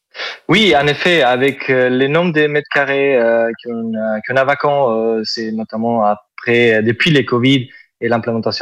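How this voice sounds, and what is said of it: Southern French accent. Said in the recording (French): “Vous avez un superbe accent... C'est l'accent du sud... c'est joli”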